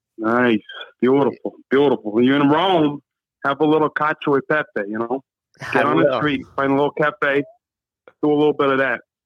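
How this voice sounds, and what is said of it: Strong, striking accent. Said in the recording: “How the fuck is that your real voice we're hearing? ... it's scaring the shit out of me ... If I'd have known you had that accent”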